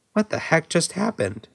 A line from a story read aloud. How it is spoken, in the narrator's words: Steve muttered to one in particular